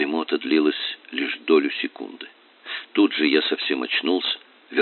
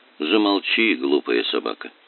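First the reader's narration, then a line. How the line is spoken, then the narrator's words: Sleepy mutter. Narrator (Russian): сонно буркнул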